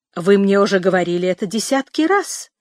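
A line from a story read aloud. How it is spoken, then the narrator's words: Exclamation. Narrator (Russian): воскликнула девушка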